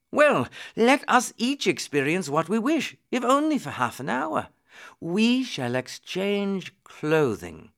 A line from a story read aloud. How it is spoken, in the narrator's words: Suddenly the prince exclaimed